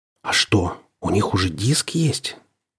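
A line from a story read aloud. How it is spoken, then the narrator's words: Quiet and breathy. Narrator (Russian): Он заговорил тихо, с придыханием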